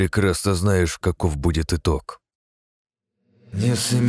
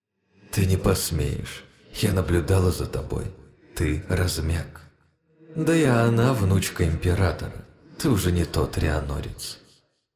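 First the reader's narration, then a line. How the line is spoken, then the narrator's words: Calm, goddess. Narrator (Russian): спокойно произнесла богиня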